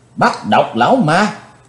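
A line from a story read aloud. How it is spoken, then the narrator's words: Crowd shouting in unison. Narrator (Vietnamese): cả tràng đều đồng thanh quát lớn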